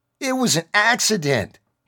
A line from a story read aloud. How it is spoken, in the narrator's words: he hollered